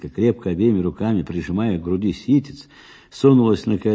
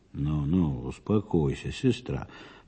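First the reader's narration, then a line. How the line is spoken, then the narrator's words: Muttered. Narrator (Russian): пробормотал Михаил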